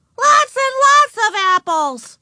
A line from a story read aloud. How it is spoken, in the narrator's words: repeated Ramona in a loud voice